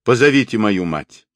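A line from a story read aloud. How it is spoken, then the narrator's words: Command. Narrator (Russian): приказал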